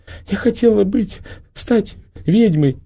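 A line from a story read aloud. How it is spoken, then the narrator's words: Tearful, muffled. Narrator (Russian): Сквозь слезы донеслось из-под черепа маски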